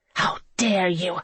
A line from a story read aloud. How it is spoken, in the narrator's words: she hissed